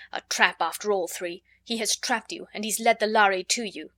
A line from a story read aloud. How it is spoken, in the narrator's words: Raynor One said harshly